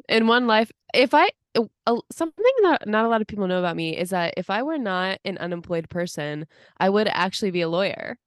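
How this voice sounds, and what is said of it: Imitates another person's voice. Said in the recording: “my Lady Gaga impression”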